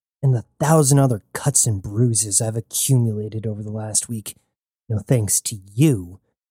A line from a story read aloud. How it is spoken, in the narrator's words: said Jazz through gritted teeth